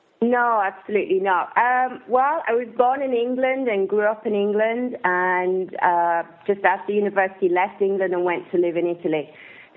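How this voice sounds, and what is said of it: Mixed English and Italian accent. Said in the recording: “your accent tells me that you're not from the United States or Canada ... my accent is kind of a mix, really ... not North American, that's for sure”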